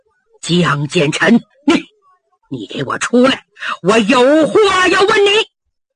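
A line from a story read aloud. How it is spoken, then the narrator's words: Low, suppressed anger. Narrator (Chinese): 强压怒火，压低嗓音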